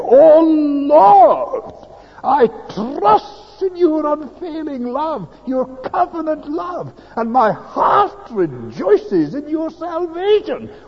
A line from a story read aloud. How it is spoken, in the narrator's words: to shout out of him